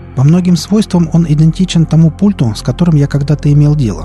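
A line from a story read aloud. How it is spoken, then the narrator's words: Plain doctor. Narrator (Russian): сказал доктор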